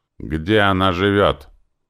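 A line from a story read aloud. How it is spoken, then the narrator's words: Lazy, through gritted teeth. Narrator (Russian): продолжил допрос вожак воинов-северян, процедил сквозь зубы лениво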